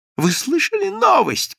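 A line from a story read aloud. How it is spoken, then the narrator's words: Shouting. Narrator (Russian): кричал Иоанн Напольский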